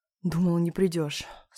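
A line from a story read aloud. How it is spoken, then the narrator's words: Breathed through a kiss. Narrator (Russian): сквозь поцелуй выдохнул Митя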